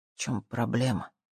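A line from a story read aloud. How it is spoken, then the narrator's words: Quiet question. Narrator (Russian): тихо спросил он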